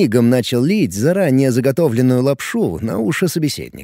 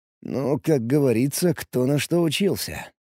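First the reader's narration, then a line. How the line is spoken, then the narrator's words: Grumbled mutter. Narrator (Russian): пробурчал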